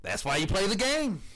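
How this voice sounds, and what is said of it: Imitates another person's voice. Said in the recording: “In my best Herm Edwards voice”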